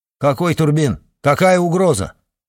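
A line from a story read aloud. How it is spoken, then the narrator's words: Irritated, raised voice. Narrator (Russian): раздраженно повысил голос генерал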